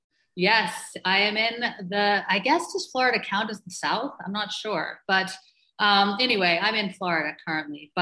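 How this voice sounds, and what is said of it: Slight, muddled mixed accent. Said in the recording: “I heard a slight accent there ... my accent is not Canadian ... a very muddled accent”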